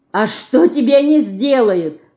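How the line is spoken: Laughing. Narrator (Russian): засмеялся Ленька

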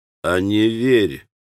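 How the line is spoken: Gentle chuckle. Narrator (Russian): ласково усмехнулся джентльмен

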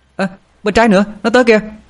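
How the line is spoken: Panicked scream. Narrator (Vietnamese): Hồng Anh hét lên thất thanh

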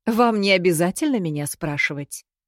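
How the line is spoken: Chuckling. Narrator (Russian): хохотнула сестра

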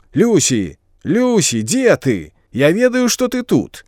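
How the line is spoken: Annoyed shout. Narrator (Belarusian): Хлопцу гэта не спадабалася ... нават крыкнуў

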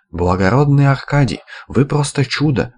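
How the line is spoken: Exclamation, feigned admiration. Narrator (Russian): воскликнула с наигранным восхищением

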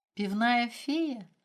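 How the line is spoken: Laughing. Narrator (Russian): рассмеялся Макс

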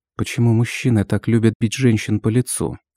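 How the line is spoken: Hurt, pleading whisper. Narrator (Russian): Обиженно прошептала, пытаясь вызвать хоть толику жалости

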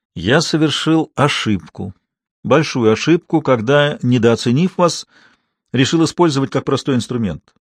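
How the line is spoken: Matter-of-fact tone. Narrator (Russian): продолжил Сартин уже будничным тоном

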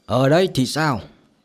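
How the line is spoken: Smiling. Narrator (Vietnamese): Từ Ngạo Thiên vẫn là cái bộ dáng mỉm cười kia nói

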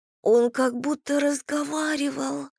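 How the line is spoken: Trembling voice. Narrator (Russian): дрожащим голосом произнесла Эмма

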